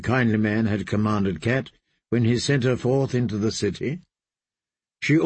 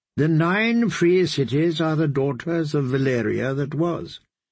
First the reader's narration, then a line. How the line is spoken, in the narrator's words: the kindly man taught her